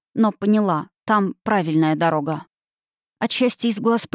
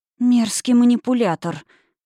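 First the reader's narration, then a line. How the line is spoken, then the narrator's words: Hoarse rasp. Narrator (Russian): прохрипела я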